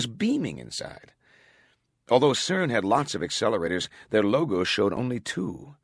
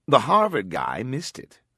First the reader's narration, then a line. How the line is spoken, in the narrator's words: Glick said